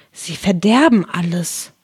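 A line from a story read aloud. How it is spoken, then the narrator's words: Whispering. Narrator (German): flüsterte Alice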